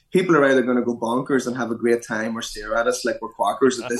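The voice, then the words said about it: Irish accent. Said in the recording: “quacker in the uh, in an Irish accent.”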